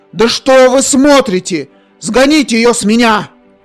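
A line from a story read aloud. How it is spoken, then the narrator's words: Disgusted shout. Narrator (Russian): С брезгливостью выкрикнул Индрик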